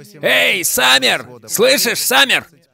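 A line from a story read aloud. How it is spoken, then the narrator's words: Distant shouting. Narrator (Russian): закричали откуда-то справа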